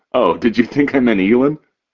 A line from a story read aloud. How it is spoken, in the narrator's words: He laughs